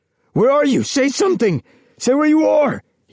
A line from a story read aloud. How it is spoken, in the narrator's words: shouted